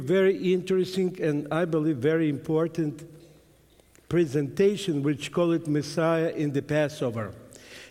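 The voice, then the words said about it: Heavy Russian accent. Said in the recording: “my heavy accent ... my broken English ... my straight Russian”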